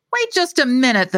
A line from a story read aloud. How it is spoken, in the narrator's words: the man said, his voice rising